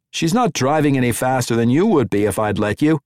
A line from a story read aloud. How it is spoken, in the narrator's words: Daniel said, shouting over the intake rush of the drive fans